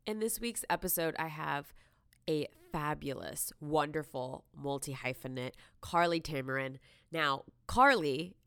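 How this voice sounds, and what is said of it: Congested voice from a cold. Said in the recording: “pardon my voice, I have what we call a little bit of a cold”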